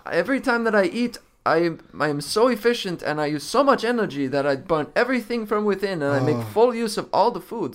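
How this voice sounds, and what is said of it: Speaks with a put-on accent. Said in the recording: “Your accent is great. It's amazing.”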